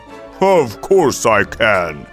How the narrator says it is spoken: growled the ogre

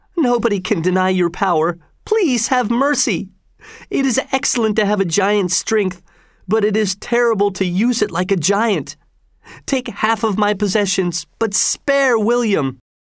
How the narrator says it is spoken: he cried

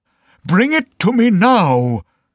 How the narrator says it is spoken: shouted the emperor, and he was so angry

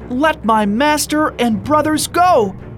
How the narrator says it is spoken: Sun Wukong shouted as he ran at them

